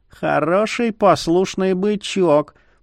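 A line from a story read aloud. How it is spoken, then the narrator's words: Bloodsucker's purr. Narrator (Russian): промурлыкала кровопийца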